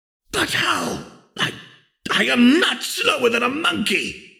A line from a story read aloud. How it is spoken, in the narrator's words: he roared internally